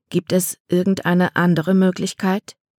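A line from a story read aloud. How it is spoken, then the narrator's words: Gentle question. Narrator (German): fragte Mama sanft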